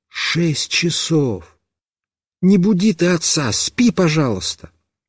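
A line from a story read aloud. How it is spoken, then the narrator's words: Mother whispering. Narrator (Russian): мама прошептала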